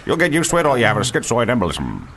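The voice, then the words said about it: Imitates a film character's voice. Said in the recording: “Is that a good impression of the Men in Black?”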